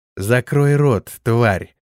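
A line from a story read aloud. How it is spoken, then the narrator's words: Vicious interruption. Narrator (Russian): злобно обрывала ее Израэль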